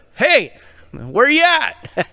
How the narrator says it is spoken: yell back

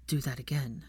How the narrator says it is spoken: demanded, his voice husky

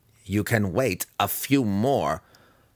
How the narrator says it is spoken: Massage snapped back

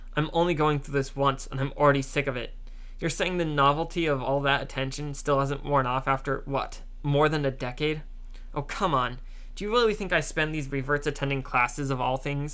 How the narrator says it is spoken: scoffed Zack

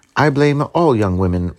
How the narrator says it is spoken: replied she

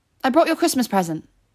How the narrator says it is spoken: she said quickly

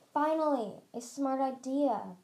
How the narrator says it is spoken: Burn hissed

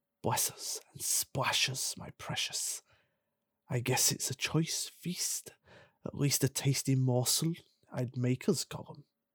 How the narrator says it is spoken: Gollum whispered and hissed

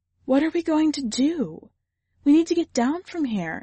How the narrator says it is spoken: Estigia said, her voice faltering from the horror of the situation

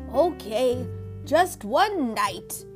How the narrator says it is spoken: grumbled

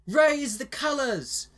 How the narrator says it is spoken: Renee yelled

